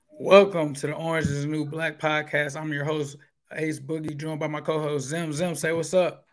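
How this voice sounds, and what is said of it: Hoarse, strained voice. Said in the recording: “As you guys can probably hear, excuse my voice. We were at PBS in the flesh going hard, so my voice is still not recovered from that game.”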